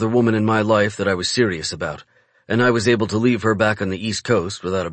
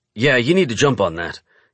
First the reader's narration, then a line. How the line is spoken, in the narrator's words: snaps